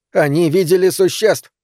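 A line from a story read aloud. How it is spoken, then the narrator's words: Yelling. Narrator (Russian): орал он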